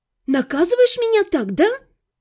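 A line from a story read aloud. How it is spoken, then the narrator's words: Furious girl hissing. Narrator (Russian): Яростно зашипела девушка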